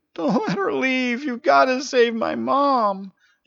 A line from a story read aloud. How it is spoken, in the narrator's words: I could hear him sobbing